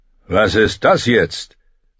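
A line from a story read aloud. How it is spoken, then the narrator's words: Fat man shouting. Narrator (German): rief ein dicker Mann aus der Topfküche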